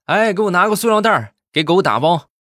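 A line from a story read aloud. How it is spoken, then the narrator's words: Loud shout. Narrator (Chinese): 这服务员大声的喊道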